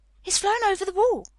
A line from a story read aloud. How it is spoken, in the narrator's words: Mary cried out